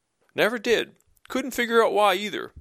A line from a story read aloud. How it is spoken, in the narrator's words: Mike replied, trying to hold back a laugh